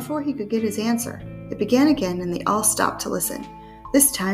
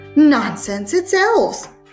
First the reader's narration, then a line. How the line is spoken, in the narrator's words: crowed her grandmother excitedly